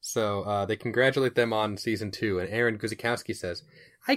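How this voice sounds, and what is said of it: Usual voice. Nothing is said of it.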